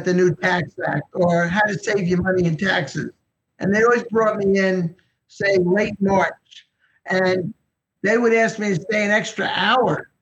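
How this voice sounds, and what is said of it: Eastern US accent. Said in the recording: “They said I had too much of an Eastern accent.”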